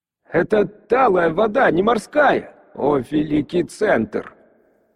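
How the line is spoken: Clear voice, sergeant. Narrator (Russian): Это был голос сержанта Хрипоногера, прозвучавший намного яснее, чем когда я слышал его в первый раз

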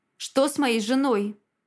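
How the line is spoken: Sharp question. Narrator (Russian): спросил резко

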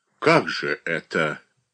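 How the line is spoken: Deep bass, menacing. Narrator (Russian): заговорил он густым басом и принимая грозный внушительный вид

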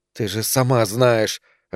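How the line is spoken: Irritated reply. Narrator (Russian): раздраженно ответила Сара

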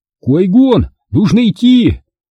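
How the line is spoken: Near-desperate shout. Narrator (Russian): Едва ли не с отчаянием крикнул Оби-Ван

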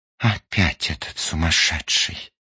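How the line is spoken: Sighing woman. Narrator (Russian): вздохнула одна из пассажирок

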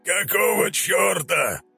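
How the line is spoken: Roared. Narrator (Russian): взревел он

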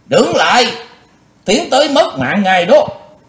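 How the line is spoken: Loud shout. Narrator (Vietnamese): có tiếng quát vàng

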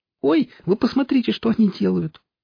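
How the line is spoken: Silly giggling shriek. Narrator (Russian): довольно глупо хихикая завопила Лиска

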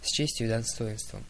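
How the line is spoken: Soft reply. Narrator (Russian): мягко ответила Артемида

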